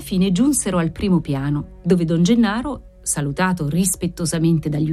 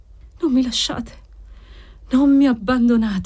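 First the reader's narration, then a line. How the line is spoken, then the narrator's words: Sighing plea. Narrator (Italian): sospirava l'assistito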